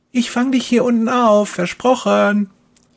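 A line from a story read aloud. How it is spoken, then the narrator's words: Calling out. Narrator (German): ruft Kerstin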